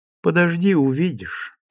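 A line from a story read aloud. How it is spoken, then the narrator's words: Calm. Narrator (Russian): спокойно говорила Ким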